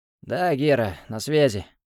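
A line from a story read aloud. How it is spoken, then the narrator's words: Hoarse voice. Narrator (Russian): хрипло сказал Илья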